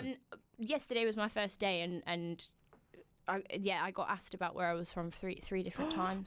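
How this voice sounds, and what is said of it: Strong Midlands English accent. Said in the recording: “I didn't realise my accent was that strong.”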